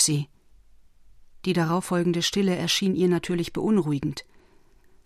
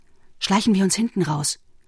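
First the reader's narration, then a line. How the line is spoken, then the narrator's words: Whispered. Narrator (German): flüsterte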